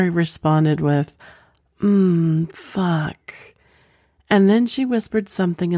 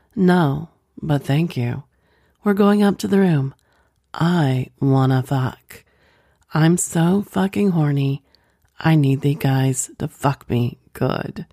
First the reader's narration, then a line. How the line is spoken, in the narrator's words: Lisa answered right away by saying in a seductive voice